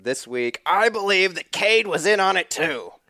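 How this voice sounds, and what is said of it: Gravelly old prospector voice. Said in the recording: “the Prospector Grovelly voice”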